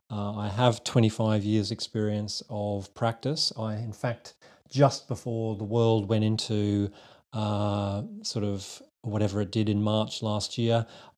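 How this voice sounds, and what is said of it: Slight Australian accent. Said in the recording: “a little twang that's still going on in my accent, which is an Aussie accent”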